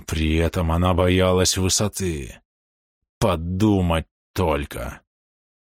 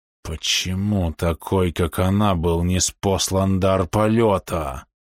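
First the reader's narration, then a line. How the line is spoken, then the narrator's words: Hiss. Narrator (Russian): прошипел Фунг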